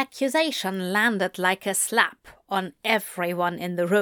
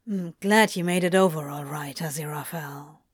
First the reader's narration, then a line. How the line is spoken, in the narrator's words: the demon muttered